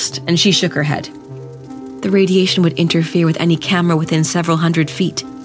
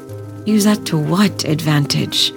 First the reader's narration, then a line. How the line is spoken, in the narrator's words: Linda asked wearily